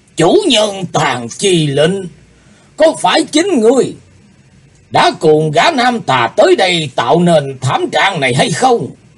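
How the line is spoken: Shouted. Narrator (Vietnamese): Lão ta quát lên

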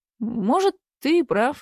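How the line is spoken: Uncertain. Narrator (Russian): ответил неуверенно

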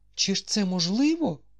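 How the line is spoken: Exclaimed. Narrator (Ukrainian): вигукнула мадемуазель де Керкабон

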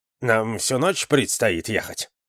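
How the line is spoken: Muttered. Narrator (Russian): пробурчал Акимас

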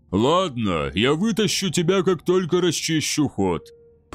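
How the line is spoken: Grumbling. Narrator (Russian): проворчал Дваслир

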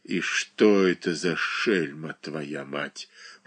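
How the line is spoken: Muttering. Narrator (Russian): пробормотал он, обращаясь к мальчику

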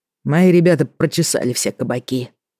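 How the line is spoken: Sighing. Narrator (Russian): вздохнул он

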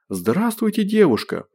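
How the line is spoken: Joyful proclamation. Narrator (Russian): провозгласил он радостно

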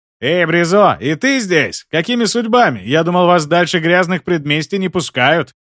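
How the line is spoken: Shout from a scrawny man. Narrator (Russian): крикнул плюгавенький тип

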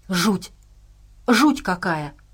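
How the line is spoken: Exclamation. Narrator (Russian): воскликнул Энди

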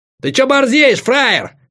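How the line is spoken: Shouted. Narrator (Russian): крикнул

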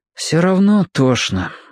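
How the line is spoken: Sigh. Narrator (Russian): вздохнул Федя

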